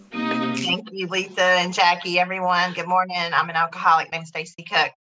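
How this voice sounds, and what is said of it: North Carolina Southern US accent. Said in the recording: “y'all could probably already tell that I don't live in Toronto by my accent ... down here in North Carolina”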